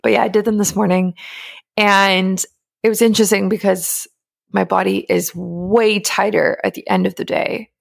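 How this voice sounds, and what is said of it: Croaky early-morning voice. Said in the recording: “my voice is like croaky”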